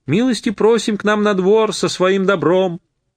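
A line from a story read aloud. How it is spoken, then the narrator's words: Sung in strange thin voice. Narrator (Russian): хозяйка каким-то не своим тонким голосом пропела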